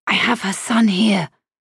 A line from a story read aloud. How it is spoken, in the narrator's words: I hissed